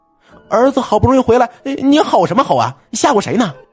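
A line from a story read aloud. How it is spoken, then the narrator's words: Shouting. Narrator (Chinese): 陈妈冲他喊道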